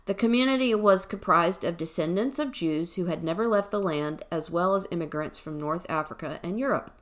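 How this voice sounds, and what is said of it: Southern accent. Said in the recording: “excuse my pronunciations, southern accent here”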